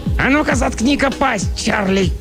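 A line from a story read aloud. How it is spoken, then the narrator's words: Indignant bark. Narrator (Russian): Тот, что повыше, возмущенно рявкнул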